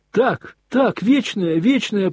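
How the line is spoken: Ringing boys' voices, tender. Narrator (Russian): прокричали все мальчики своими звонкими голосами с умиленными лицами

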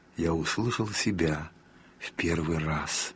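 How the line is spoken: Quiet, tearful, moved. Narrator (Russian): Он со слезами на глазах сказал тихим, растроганным голосом

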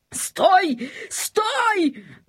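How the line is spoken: Shouting king. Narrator (Russian): закричал король

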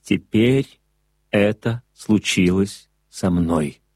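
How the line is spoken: Plain. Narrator (Russian): ответил Монтек

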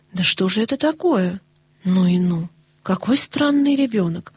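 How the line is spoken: Exclaimed half aloud. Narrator (Russian): воскликнула мисс Полли почти вслух

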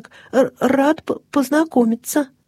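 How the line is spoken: Stammering lion cub. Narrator (Russian): заикаясь, проговорил львенок

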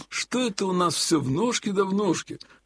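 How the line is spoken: Sudden grumble. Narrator (Russian): вдруг пробурчал Елагин

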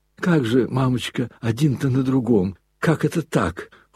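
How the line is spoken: Tender, anxious babble. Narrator (Russian): Хоть и ласково, но опасаясь немного за мамочку, пролепетал штабс-капитан

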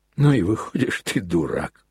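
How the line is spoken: Sudden laughter. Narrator (Russian): Неожиданно рассмеялся отец Никодим

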